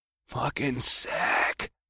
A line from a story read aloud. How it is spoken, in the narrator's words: I heard Mike say under his breath in a tone of stoner wonder